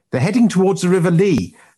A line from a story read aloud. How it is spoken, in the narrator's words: Knight yelled over his shoulder